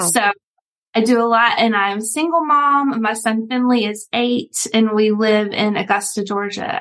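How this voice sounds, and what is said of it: Slow-paced regional accent. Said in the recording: “my accent, I talk a little bit slower than most”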